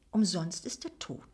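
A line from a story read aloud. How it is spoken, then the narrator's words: Gentle speech. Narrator (German): sagte Akif sanft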